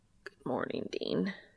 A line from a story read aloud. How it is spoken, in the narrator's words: Cass rasps, his throat apparently sore from last night